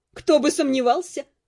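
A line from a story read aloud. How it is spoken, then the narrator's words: Snorting. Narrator (Russian): хмыкнула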